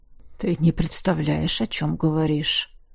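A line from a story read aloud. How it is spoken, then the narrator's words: Hoarse. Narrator (Russian): хрипло сказал он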